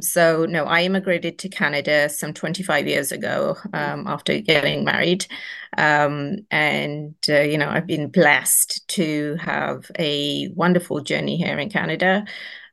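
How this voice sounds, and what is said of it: Somewhat British accent. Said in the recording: “I do have somewhat of a British accent.”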